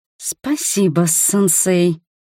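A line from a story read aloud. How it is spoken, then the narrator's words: Hissed like a wryneck. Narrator (Russian): как вертишейка прошипела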